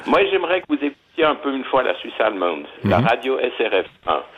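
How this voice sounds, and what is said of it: Pronounced regional Swiss French accent. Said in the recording (French): “j'ai gardé en français mon accent des Hauts-de-Montreux ... un accent non. assez prononcé”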